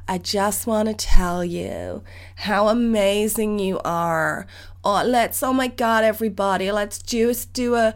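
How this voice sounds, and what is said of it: Impression of an American woman. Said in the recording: “there was a lady on there, an American lady ... Americans forgive me, but I'm going to do an impression of her right now”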